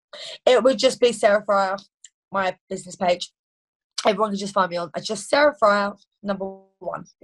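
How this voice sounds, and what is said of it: Non-American accent. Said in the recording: “your awesome accent, because I know the audience loves cool accents ... a non-American accent”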